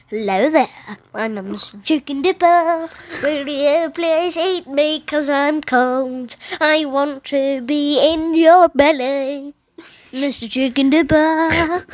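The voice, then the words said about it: Silly voice of a talking food. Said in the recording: “I'll do my impression of it.”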